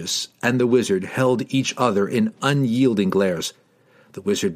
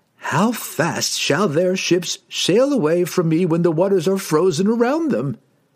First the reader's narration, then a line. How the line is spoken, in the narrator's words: He laughed again, but this time more seriously, more dangerously